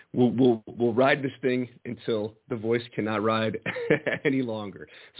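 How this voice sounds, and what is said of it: Strained, failing hoarse voice. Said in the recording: “my voice is hanging on by a thread ... my voice is going to go at any minute here”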